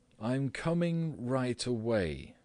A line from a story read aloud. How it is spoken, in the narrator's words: said Gregor, slowly and deliberately